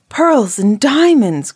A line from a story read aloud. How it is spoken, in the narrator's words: cried the second